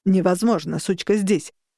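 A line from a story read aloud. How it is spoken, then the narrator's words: Furious bark. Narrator (Russian): рявкнул мой парень, и его голос звучал разъяренно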